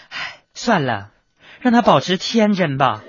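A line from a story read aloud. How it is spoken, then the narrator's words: Child, sighing. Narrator (Chinese): 另一个小孩呢，居然在那叹了一口气说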